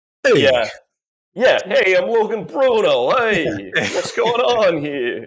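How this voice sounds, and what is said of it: Stereotyped New Jersey/New York accent. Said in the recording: “he didn't have a Louisville, Kentucky Southern drawl. He had like a New Jersey, kind of New York stereotype”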